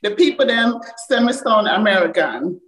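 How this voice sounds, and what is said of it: Jamaican accent. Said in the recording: “getting your Jamaican accent back”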